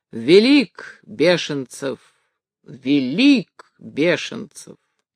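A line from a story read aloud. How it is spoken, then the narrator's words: Thunderous voice. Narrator (Russian): произносил громовым своим голосом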